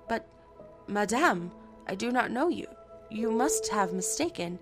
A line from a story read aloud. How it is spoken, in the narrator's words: astonished, stammered